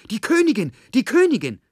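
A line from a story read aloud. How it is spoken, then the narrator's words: Anxious calling out. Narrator (German): rief Fünf, der die ganze Zeit ängstlich Ausschau gehalten hatte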